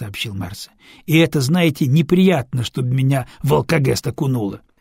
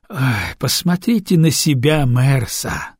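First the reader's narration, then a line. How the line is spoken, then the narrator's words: Sighing. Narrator (Russian): вздохнул Дорофеев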